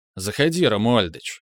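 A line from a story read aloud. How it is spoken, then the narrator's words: Bored voice. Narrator (Russian): сказал я скучным голосом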